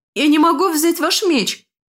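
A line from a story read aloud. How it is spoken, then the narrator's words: Shout. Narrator (Russian): выкрикнула Ренка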